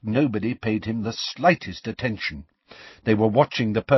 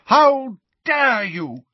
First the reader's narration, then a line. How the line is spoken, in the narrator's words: the figure shouted as she ran